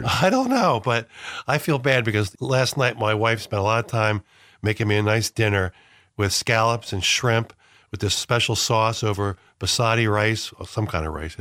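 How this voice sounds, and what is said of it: Deep congested head-cold voice. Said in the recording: “Some bastard gave me a head cold. You can hear my deep voice, right? I'm almost ready for radio”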